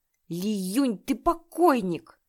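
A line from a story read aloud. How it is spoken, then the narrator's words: Roar. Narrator (Russian): взревел он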